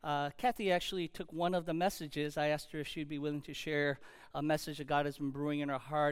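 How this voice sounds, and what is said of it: Slightly hoarse, weary voice. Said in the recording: “my voice is a little bit hoarse ... or if I sound a little weary”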